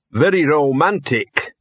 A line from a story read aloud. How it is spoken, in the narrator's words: said Gaspode distantly